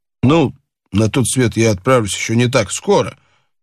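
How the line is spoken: Dry objection. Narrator (Russian): сухо возразил Боб

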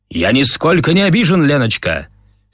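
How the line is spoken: Tragicomic shout. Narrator (Russian): Все в том же трагикомическом фарсе крикнул он

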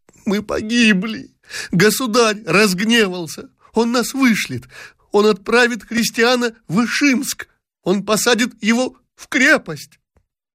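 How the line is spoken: Terrified sobbing exclamations. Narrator (Russian): Дашенька, перепуганная, рыдала, восклицая

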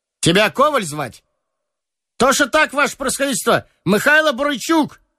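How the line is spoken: Cheerful childlike shout. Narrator (Russian): весело, с довольно детской улыбкой крикнул солдат

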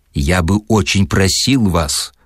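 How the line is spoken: Snapping retort. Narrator (Russian): огрызнулся Филипп Филиппович

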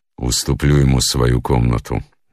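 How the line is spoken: Gloomy. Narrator (Russian): мрачно сказал

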